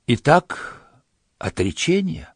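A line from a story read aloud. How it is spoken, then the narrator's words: Quiet question. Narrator (Russian): тихо спросил царь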